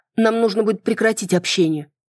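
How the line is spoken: Trembling voice. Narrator (Russian): дрогнувшим голосом произнесла

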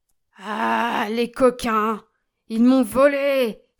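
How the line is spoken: Furious exclamation. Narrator (French): s'écria-t-il en furie

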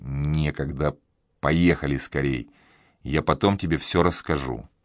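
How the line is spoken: Cold, through gritted teeth. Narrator (Russian): процедил сквозь зубы

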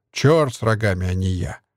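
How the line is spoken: Irritated reply. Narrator (Russian): раздраженно ответил Стась

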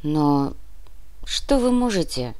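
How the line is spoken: Melancholy sigh. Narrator (Russian): тоскливо вздохнул профессор

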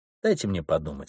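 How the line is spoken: Plain. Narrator (Russian): сказал он

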